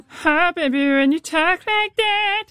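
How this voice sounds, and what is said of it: Imitated singer voice, trumpet-like. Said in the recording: “do a weirdly good Shakira impression ... sounding a little bit like a person and a trumpet at the same time”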